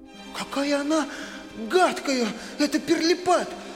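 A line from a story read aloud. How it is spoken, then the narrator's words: Fervent exclamation. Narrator (Russian): С жаром воскликнула Мари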